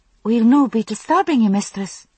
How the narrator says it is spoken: one asked anxiously

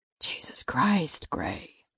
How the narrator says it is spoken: Paul whispered

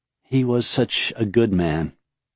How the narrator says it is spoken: Serene said softly

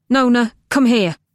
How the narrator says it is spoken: Cam said sharply

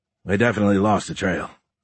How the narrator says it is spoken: Stephen said in a gruff voice

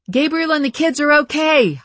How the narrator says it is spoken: I yelled over the sounds of people talking and exclaiming over the damaged building

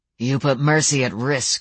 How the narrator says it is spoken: Samuel growled

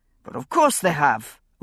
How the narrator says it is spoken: a woman was saying in an authoritative tone of voice

